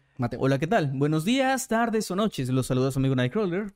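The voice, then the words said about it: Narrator voice. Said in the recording (Spanish): “voz de narrador”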